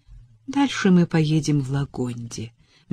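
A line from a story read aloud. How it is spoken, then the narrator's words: Soft. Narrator (Russian): мягко произнес он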